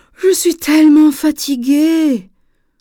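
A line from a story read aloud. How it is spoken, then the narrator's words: Tired groan with yawn. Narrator (French): gémit Dorian en bâillant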